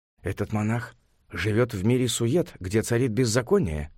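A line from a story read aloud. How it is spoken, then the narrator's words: Quiet. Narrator (Russian): тихонько сказал Цинфын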